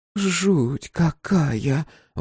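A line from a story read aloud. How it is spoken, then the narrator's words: Breathless exhale. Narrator (Russian): выдохнула Руф Энн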